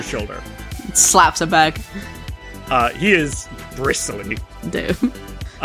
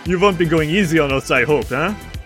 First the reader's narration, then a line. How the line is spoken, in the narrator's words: laugh, says